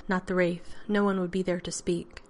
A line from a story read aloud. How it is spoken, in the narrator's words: Shinabi added gravely